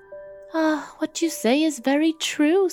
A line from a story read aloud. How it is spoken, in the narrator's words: said the wife, with a sigh